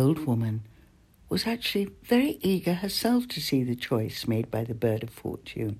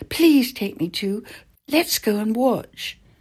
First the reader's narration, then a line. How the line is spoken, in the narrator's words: the prince cried